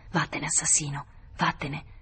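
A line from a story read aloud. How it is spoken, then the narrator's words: Low, menacing. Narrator (Italian): dicendogli sottovoce minacciosa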